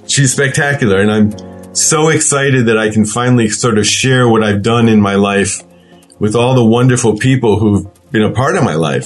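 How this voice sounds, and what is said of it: Teary, emotional voice. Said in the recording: “I'm, I'm actually getting teary as I say this.”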